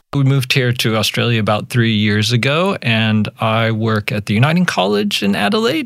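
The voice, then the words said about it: American accent, Yankee drawl. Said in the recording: “As your listeners might pick up pretty quick, I am American. I pick up my Yankee drawl”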